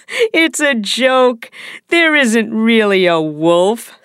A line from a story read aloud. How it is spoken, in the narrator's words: said the boy, laughing